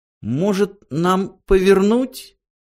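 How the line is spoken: Timid suggestion. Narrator (Russian): робко предложил он

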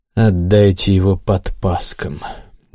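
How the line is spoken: Sulky mutter. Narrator (Russian): буркнул нахохлившийся Гессер

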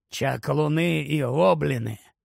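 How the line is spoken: Quiet speech. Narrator (Ukrainian): тихо сказав Грибхук

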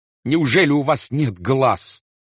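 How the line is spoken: Shouting. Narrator (Russian): кричал астроном

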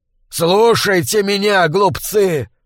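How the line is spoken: Shout. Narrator (Russian): закричал Бонифаций

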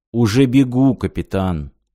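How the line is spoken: Sad. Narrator (Russian): грустно сказал Хасан

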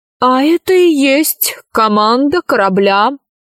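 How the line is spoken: Reply, then thin laughter. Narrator (Russian): ответил вампир и тонко захохотал

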